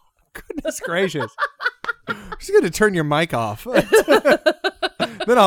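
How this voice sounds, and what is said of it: Usual voice. Nothing is said of it.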